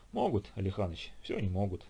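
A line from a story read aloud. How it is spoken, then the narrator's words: Sad reply. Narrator (Russian): печально ответил Нестеренко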